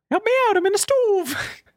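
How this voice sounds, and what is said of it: Mickey Mouse voice impression. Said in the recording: “That was Mickey Mouse in the stove.”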